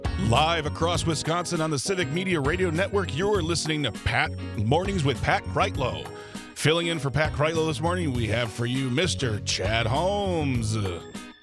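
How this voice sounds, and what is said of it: Big booming radio announcer voice. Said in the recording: “Putting on my biggest radio voice”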